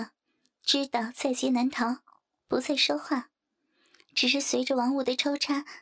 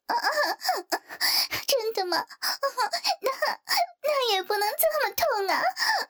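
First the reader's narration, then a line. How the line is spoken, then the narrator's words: Trembling, broken voice. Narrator (Chinese): 林冰被操的声音都走掉了，颤声说道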